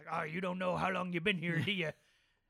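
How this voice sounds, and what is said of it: Imitated old sailor accent. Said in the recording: “God, I love the sailor accent.”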